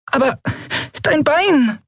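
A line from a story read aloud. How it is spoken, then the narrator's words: Squeaked. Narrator (German): piepste Nelen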